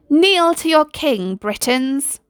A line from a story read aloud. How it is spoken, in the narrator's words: roared Merlin